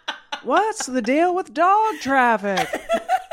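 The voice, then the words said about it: Seinfeld impression. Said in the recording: “I turned into Seinfeld ... that was an impression”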